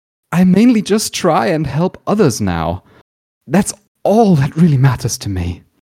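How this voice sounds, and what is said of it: Exaggerated pathetic, melodramatic voice. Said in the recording (German): “mit so einer pathetischen Stimme”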